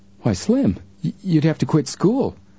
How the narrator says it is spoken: Joe cried out

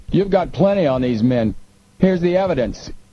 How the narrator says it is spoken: He called out

